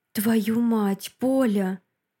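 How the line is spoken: Hoarse breathless exhale. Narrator (Russian): Хрипло выдыхает он

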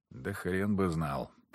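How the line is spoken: Mumbling. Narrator (Russian): пробормотал

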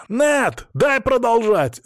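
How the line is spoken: Shouting. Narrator (Russian): закричал он

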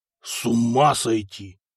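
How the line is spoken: Muttered. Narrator (Russian): пробормотал Эрнак

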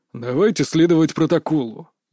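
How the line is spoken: Rude interruption. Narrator (Russian): грубо перебил его Змеев

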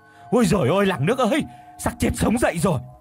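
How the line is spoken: Terrified shriek. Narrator (Vietnamese): Miệng thì rú lên kinh hãi

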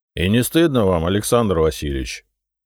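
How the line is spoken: Cook's reproachful grumbling. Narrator (Russian): укоризненно проворчал повар

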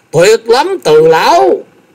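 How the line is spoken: Excited exclamation. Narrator (Vietnamese): Thái Anh tinh thần vô cùng phấn chấn, kêu lên

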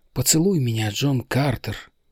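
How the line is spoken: Whisper. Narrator (Russian): прошептала она

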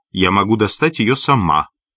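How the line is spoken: Sharp. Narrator (Russian): резко произнесла она

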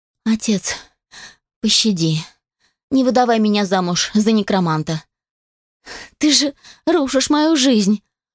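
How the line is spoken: Sobbing young woman. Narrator (Russian): всхлипывала молодая девушка

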